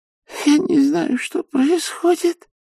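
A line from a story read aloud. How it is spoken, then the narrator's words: Sobbing old woman. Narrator (Russian): всхлипывала старушка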